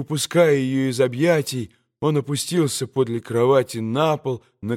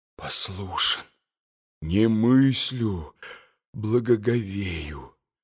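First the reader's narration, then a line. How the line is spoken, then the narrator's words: Muttering. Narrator (Russian): бормотал Митя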